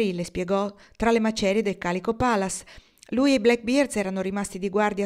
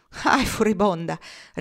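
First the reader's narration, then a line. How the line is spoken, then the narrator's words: Laughing reply. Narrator (Italian): rispose Norman ridendo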